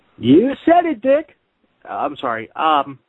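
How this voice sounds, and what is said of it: Imitates another person's voice. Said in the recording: “my Ryan Seacrest impression”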